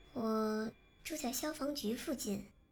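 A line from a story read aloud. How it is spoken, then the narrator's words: Quiet voice. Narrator (Chinese): 小声地说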